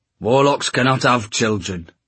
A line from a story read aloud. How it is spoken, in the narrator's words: snarled Starkweather